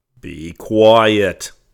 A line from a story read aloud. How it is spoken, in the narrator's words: cried Policeman Blue Jay sternly